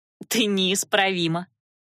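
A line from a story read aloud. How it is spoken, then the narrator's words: Chuckling. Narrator (Russian): хохотнула Наташа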